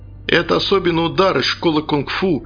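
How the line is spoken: Joyful boast. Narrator (Russian): радостно похвастался я

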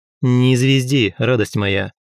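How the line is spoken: Rough interruption. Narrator (Russian): Грубо прервал

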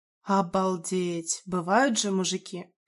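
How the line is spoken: Muttered. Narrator (Russian): пробормотала она

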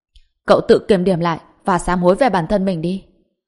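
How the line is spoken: Reluctant angry scolding. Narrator (Vietnamese): bất đắc dĩ lắc đầu rồi tức giận nói

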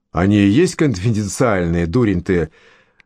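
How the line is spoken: Mocking. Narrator (Russian): насмешливо проговорил Хенни

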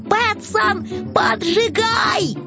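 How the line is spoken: Startled wail. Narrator (Russian): Финдус завопил

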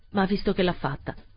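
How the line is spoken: Cold. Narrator (Italian): continuò freddamente

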